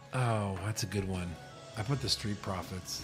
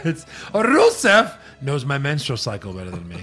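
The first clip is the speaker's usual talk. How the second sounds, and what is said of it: Exaggerated heavy foreign accent. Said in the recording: “Too much accent”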